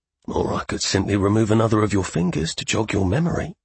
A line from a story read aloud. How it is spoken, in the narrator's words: Skelly said coldly